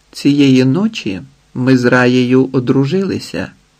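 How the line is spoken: Calm. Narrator (Ukrainian): Платон спокійно сказав матері

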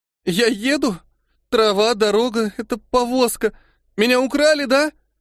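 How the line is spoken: Sobbing, broken muttering. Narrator (Russian): не выдержала и разрыдалась, бормоча сквозь слезы обрывочные фразы

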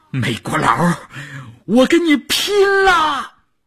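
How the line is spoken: Shout. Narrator (Chinese): 少月的喊声

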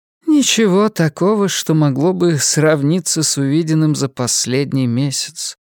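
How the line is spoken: Old woman's sigh. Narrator (Russian): вздохнула матушка Абагейл

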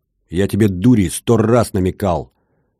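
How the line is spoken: Shouting loudly. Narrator (Russian): Рикс уже кричал в голос

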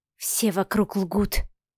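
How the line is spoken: Breathed out. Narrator (Russian): выдохнула Машка

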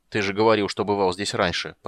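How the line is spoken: Grumbled in reply. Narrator (Russian): проворчал в ответ Гнимш

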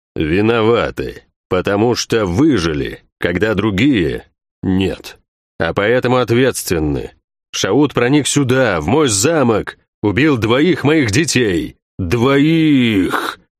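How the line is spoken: Growl. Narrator (Russian): Он прорычал это слово

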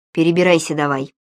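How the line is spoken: Rough. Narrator (Russian): грубо сказала она

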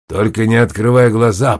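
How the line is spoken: Growl. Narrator (Russian): прорычал Лас

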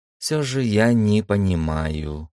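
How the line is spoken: Mumble. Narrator (Russian): пробормотала Санита

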